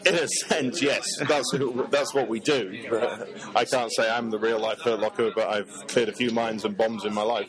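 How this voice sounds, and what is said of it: British accent. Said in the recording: “I thought from the accent you got it. I was in the British military.”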